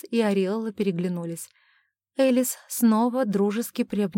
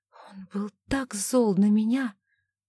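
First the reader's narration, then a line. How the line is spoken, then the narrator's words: Woman whispering. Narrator (Russian): прошептала она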